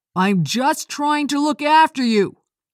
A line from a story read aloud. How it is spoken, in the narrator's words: he shouted back